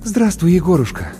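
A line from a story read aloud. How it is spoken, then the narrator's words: Relieved exhale. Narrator (Russian): облегченно выдохнула Маша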